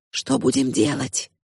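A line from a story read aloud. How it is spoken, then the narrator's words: Whisper. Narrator (Russian): прошептала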